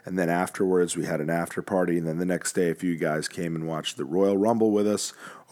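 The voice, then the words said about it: Worn-out, strained voice. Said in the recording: “As you can see, my voice is still recovering from a great night of chatting”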